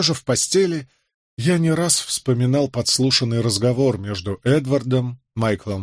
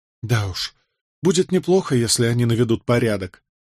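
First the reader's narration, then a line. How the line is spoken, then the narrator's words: Sigh. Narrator (Russian): вздохнула Джозефина, узнав об этом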